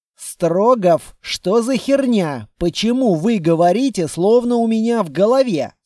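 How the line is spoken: Plain. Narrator (Russian): спросил я

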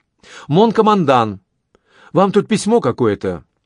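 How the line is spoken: Cheerful. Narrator (Russian): полковой адъютант ... весело произнес

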